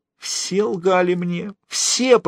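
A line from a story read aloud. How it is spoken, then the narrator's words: Moan. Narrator (Russian): простонал он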